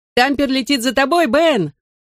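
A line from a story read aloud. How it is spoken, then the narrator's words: Shout. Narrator (Russian): крикнул ему я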